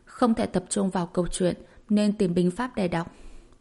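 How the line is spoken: Soft. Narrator (Vietnamese): Thẩm Nguyên Tiếu khẽ nói

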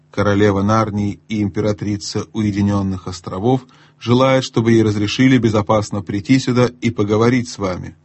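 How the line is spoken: Plain, gnome. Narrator (Russian): сказал гном

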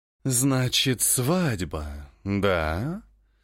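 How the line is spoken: Purring close to ear. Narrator (Russian): Промурлыкала Мирантис над ее ухом

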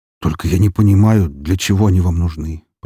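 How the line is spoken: Deep bass voice. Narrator (Russian): пробасил он

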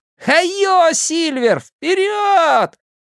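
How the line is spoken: Shouted at full voice. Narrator (Russian): Билл во все горло выкрикнув

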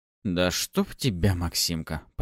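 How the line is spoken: Grimacing mutter. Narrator (Russian): пробормотал я, скривившись

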